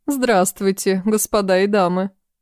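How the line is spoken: Booming trumpet-like voice. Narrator (Russian): сказала Капитонова трубным голосом

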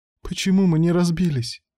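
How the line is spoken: Sobbing. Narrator (Russian): всхлипывала Лида

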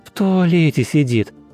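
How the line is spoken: Laughing. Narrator (Russian): рассмеялась Мария

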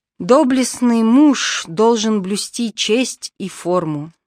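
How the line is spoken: Plain. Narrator (Russian): сказал Мигель

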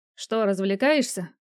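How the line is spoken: Mocking question. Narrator (Russian): насмешливо поинтересовался я

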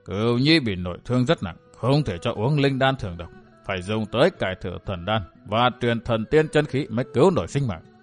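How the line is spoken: Muttering. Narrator (Vietnamese): Vạn Tà Thạch Thương Ngân lẩm bẩm

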